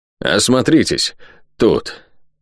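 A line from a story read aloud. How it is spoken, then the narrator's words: Hoarse, strained sergeant. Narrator (Russian): хриплый с трудом сказал сержант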